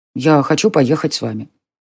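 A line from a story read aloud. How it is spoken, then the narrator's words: Calm child's voice. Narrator (Russian): спокойно сказал мальчик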